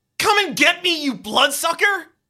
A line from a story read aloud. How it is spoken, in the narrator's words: You shout